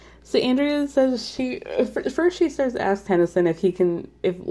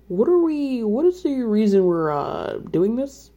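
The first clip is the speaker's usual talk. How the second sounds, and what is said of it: Imitates another person's voice. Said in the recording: “that is actually a really good Tennyson impression”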